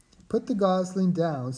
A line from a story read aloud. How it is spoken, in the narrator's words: said the goose with a laugh